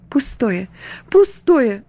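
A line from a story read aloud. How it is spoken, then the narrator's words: Tearful sighing. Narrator (Russian): вздыхала она наконец сквозь слезы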